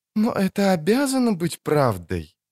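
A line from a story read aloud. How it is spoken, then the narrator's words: Sudden melodious remark, elf woman. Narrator (Russian): заметила вдруг мелодичным голосом прекрасная эльфка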